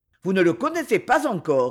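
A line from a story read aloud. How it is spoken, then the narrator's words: Quick, lively reply. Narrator (French): reprit vivement l'expéditionnaire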